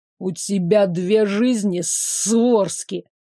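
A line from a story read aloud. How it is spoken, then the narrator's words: Hissed with hatred. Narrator (Russian): шипеть с ненавистью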